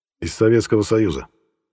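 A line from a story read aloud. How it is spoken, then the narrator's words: Firm voice. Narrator (Russian): ответил я твердым голосом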